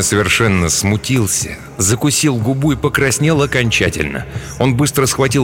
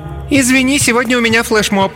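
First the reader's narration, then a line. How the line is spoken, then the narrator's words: Loud announcement. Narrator (Russian): хаба-хаба громко объявила на весь кабинет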